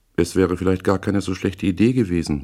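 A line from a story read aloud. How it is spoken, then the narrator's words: Calm. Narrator (German): sagte ruhig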